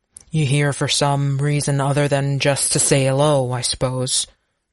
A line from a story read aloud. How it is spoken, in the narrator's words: Braddock grunted